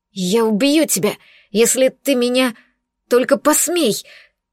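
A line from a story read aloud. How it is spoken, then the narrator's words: Suddenly hoarse. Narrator (Russian): резко осипла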